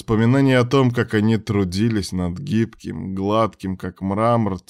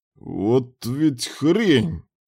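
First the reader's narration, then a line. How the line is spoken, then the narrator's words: Hissing. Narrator (Russian): прошипел Муса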